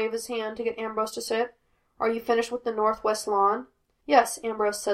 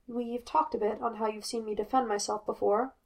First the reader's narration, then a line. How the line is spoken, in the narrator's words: Ambrose says quietly